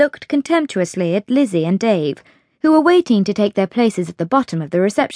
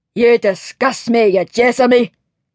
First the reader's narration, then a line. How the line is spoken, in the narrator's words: growled Angus MacGregor, the fiery-tempered Highland cook